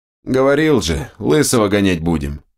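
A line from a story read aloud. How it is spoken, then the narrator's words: Snorting. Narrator (Russian): хмыкнул Берс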